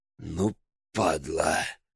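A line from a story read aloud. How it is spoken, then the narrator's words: Hissed. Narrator (Russian): прошипел Гроздин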